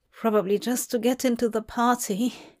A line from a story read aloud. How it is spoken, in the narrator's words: said the young man timidly